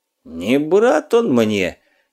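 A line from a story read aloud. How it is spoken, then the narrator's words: Hoarse exhale. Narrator (Russian): хрипло выдохнул Скуратов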